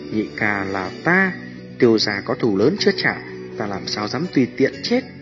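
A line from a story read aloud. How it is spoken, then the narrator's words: Smiling, soft voice. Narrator (Vietnamese): Tiêu Viêm mỉm cười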